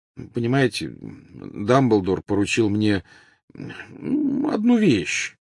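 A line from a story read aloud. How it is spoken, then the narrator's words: Mumbling. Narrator (Russian): промямлил Гарри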